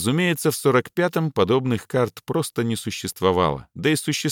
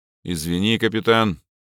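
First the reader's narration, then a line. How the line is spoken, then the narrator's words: Dry, regretful grumble. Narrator (Russian): сухо буркнул Трёшников, уже успевший пожалеть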